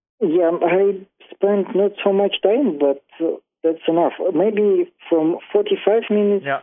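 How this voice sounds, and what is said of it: Russian accent. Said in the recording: “I love this Russian accent”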